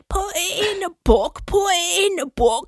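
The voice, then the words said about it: Croaky sung lower-class British accent. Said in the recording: “trying to sing in this like lower class British accent... My throat is clenching. I like barely croak out some sounds.”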